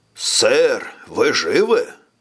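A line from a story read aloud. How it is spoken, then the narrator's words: Exclaimed. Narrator (Russian): воскликнул Свенсон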